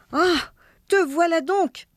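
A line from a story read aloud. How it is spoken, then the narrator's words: Wife exclaiming. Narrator (French): s'écria sa femme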